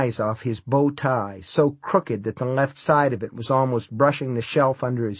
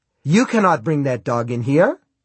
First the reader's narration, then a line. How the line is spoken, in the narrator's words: he said sharply